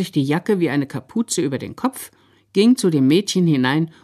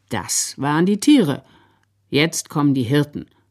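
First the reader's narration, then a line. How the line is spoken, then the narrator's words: Very calm. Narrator (German): Da sagte der Sepp ganz ruhig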